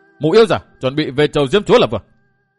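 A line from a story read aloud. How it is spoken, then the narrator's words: Spirited, raised voice. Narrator (Vietnamese): phấn khởi tinh thần, cất cao giọng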